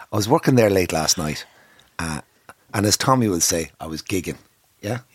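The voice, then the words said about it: Croaky voice. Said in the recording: “My voice is croaky.”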